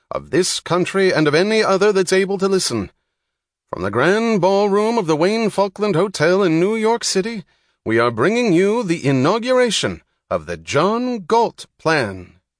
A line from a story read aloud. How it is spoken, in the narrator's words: the announcer cried into a microphone